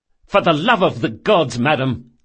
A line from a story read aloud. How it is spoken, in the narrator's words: snapped Locke